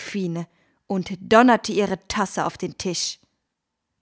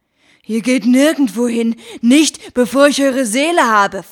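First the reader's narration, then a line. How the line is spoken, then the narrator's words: Hissed. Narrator (German): fauchte er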